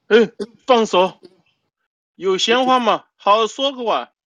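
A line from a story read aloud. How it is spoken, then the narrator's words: Sharp shout. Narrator (Chinese): 罗子富在旁喝叫沈小红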